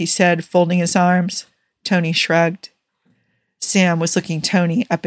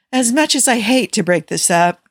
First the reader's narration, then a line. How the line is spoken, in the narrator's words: Natasha sighed